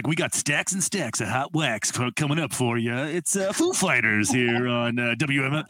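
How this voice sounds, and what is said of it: Put-on radio DJ voice. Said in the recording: “put on a fake voice like that ... strip club DJ voice”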